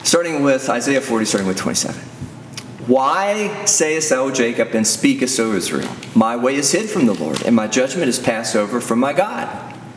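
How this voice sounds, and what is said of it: Radio announcer voice. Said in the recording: “in my radio voice.”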